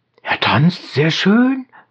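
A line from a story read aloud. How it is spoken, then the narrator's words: Group answer. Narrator (German): war immer die Antwort der Abderiten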